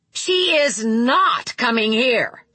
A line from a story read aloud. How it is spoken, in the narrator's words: Tiffany said again, her voice strident, angry